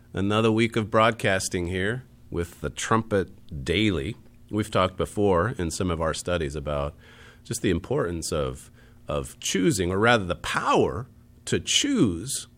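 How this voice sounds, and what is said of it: Raspy, congested voice. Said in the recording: “my raspy voice today... still sounding a bit congested in my throat”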